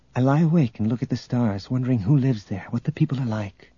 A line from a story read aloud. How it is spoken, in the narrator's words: Tenenyul said softly